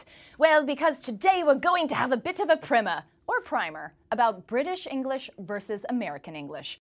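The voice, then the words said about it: Put-on English accent. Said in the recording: “Why am I talking like this on the telly in what my four-year-old calls my English accent?”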